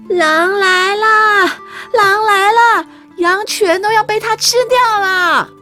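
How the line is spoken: Shepherd boy shouting. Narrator (Chinese): 小牧童的喊叫声

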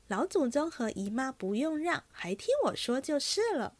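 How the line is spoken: Smiling. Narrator (Chinese): 凤姐儿笑道

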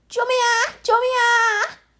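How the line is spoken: Crying out. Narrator (Chinese): 一阵呼叫声

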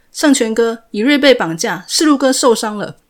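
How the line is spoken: Panicked shouting into phone. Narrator (Chinese): 他慌乱的对着手机大喊

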